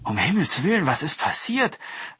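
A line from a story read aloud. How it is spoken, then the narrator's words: Wife calling out. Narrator (German): rief seine Frau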